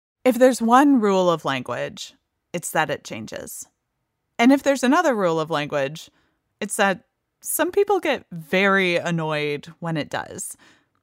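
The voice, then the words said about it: Creaky voice, vocal fry. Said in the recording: “a simple creak in my voice”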